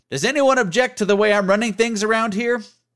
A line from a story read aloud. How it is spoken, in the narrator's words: one of our drill instructors, who regularly shouted loud and vulgar things, yelling out